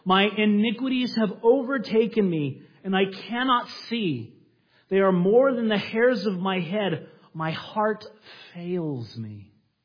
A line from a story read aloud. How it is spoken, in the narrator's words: He cried out to the Lord